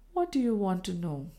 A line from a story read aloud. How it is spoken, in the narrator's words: she asked in a low voice